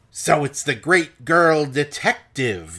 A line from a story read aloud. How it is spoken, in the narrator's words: the man hisses at her